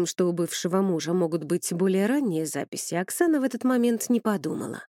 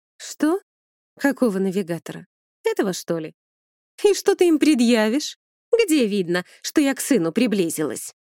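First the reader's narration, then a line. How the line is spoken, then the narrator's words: Triumphant laughter. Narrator (Russian): Вновь победно расхохоталась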